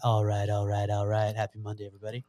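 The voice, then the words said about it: Imitates another person's voice. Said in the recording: “my Matthew McConaughey impression ... Not bad. It's kind of an Armenian version.”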